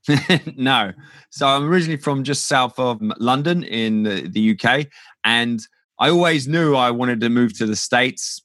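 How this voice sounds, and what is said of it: Non-American English accent. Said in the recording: “clearly that is not a US accent that we're hearing”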